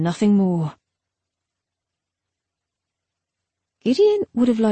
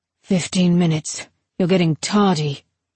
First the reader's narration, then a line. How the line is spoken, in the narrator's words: his adept said merely